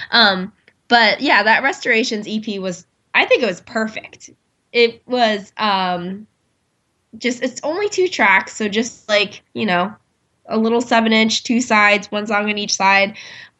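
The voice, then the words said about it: Slightly stuffy, congested voice. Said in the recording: “I have a little bit of a cold, so ... I sound a little disgusting”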